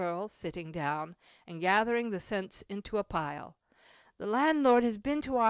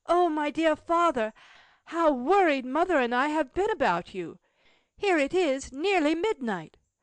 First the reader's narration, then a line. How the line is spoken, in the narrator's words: A young girl, in tears, exclaimed